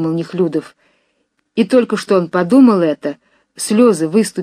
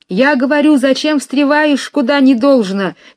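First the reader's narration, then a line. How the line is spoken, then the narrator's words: Shouting from one side. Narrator (Russian): кричали с одной стороны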